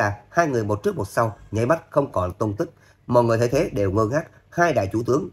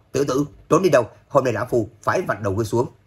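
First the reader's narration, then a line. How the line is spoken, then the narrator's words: Angry loud scolding. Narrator (Vietnamese): Hoàng Phủ Thiên Nguyên giận dữ mắng to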